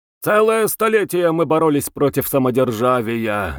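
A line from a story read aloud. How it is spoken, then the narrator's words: Drunken shouting. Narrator (Russian): нетрезвым голосом прокричал кто-то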